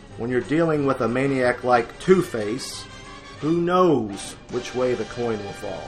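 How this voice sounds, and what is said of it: Dramatic breathless narrator with long pauses. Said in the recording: “my best William Dozier impersonation ... such long pauses ... that kind of breathless, you know, narration”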